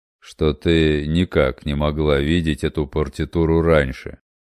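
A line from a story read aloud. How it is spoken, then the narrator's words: Dry, stern. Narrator (Russian): также сухо и строго продолжал Домис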